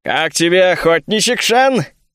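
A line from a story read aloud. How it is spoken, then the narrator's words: Chuckling. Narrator (Russian): хохотнул маг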